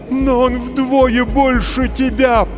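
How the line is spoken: Mother moaning in terror. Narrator (Russian): простонала мать, почти обезумев от ужаса

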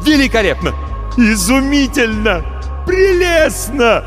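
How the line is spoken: Ecstatic unrestrained shouting. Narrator (Russian): кричал Марамбаль, не опасаясь, что его сочтут безумным

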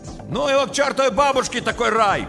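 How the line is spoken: Shout from a car. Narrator (Russian): крикнул из машины Щербак

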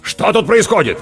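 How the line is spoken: Barking. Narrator (Russian): рявкнул Борис Борисович

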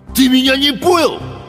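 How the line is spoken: Sharp bark. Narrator (Russian): рявкнул Гусиныч

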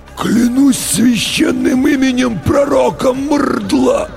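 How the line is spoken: Hoarse choked unison. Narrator (Russian): В унисон просипели оба десантника перехваченными горлами

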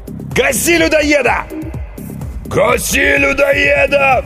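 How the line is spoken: Crowd roaring. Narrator (Russian): взревела толпа

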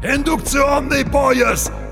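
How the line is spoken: Shouting from afar. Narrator (Russian): кричал Барилло со своего транспортера

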